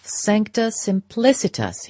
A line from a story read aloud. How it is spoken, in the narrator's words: he exclaimed